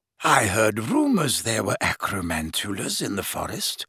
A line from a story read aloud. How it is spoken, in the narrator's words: said Slughorn softly